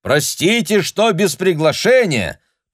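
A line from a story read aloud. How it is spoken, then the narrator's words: Shout. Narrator (Russian): прокричал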